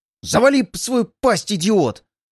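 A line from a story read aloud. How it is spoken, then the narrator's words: Shout. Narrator (Russian): прокричал Чук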